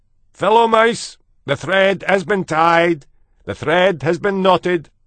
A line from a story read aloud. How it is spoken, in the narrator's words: shouted